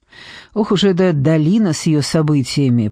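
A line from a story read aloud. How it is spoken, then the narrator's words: Muttered. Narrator (Russian): пробормотал он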